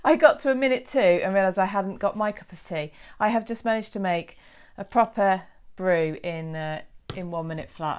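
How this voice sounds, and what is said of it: Out of breath. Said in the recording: “I'm so sorry, I'm out of breath”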